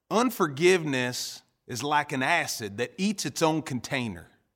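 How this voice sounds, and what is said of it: Poor imitation of Southern preacher accent. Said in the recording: “in his Southern accent ... my accent is horrible, my impersonation is horrible”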